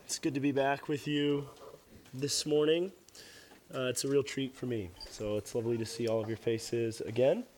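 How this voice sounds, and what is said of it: Hoarse, worn-out voice. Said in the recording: “my voice is kind of gone this morning”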